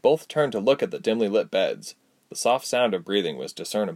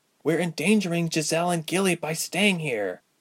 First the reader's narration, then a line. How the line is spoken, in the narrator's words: Ilse whispered sharply